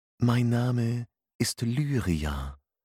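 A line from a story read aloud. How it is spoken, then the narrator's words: Hypnotic, energetic voice. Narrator (German): sagte sie mit hypnotischer Stimme voller Energie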